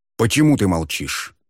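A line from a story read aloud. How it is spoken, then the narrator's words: Angry question. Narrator (Russian): зло спросил Муан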